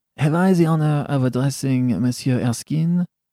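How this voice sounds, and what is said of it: Slight French accent. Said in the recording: “said, in a slight French accent,”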